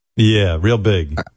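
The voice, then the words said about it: Sarcastic tone. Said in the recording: “being sarcastic.”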